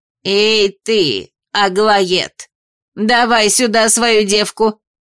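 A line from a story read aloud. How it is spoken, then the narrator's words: Bark. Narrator (Russian): рявкнула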